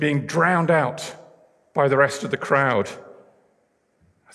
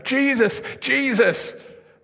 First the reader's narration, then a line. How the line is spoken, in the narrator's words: But she was shouting